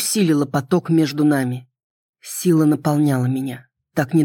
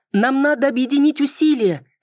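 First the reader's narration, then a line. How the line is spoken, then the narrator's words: Shouted. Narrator (Russian): крикнула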